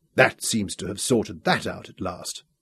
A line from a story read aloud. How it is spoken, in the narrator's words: murmured